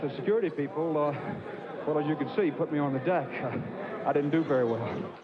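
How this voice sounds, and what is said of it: Out of breath, breathless speech. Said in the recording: “I'm sorry to be out of breath”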